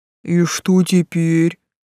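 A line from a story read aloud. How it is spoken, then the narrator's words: Low booming rumble. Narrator (Russian): прогудел Тесл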